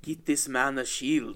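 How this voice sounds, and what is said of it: Poor attempt at African accent. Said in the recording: “trying to do the accent, African, I suck at it ... African uh, accent, uh, Wakandan accent ... it's really a fake accent”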